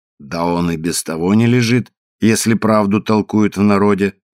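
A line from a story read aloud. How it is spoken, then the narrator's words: Calm remark. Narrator (Russian): заметил спокойно плотник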